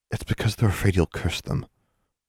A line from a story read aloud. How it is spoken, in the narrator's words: Anna whispered in her ear